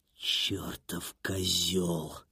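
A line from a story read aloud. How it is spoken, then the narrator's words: Muttering through teeth. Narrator (Russian): пробормотал сквозь зубы Хольц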